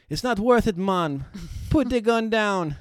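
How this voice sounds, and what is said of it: Put-on Bahamian accent. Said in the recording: “That was a better accent, though, right?”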